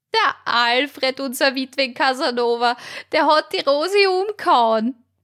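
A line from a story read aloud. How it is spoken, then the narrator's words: Shrieking. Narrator (German): kreischte die magere Martha los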